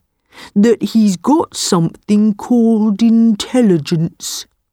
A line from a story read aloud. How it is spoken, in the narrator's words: said the buffalo slowly